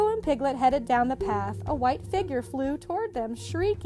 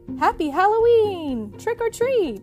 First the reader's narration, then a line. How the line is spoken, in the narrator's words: Pooh cried